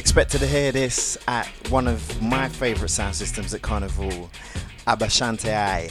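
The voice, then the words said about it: Put-on Caribbean accent. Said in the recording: “I attempt a Caribbean accent.”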